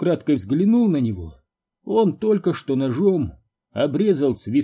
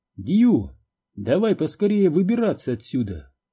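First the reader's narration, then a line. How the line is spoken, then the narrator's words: Very calm speech. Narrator (Russian): Марти очень спокойно мне говорит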